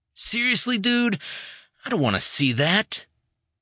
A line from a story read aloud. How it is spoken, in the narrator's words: Jay grumbled